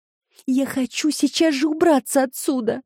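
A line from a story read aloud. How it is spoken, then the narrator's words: Whining. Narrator (Russian): хныкала Джемма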